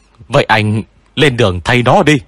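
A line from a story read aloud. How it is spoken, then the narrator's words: Roared angrily. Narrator (Vietnamese): Hách Văn Minh mới gầm lên với anh trai của mình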